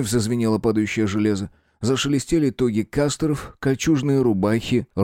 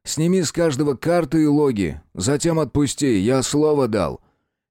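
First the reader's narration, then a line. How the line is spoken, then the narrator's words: Loud, reassuring. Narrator (Russian): Говорил я громко, дабы беспомощно мнущиеся азиаты расслышали и чуть успокоились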